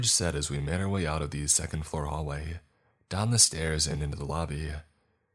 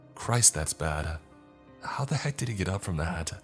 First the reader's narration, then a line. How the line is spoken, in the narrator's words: George mumbled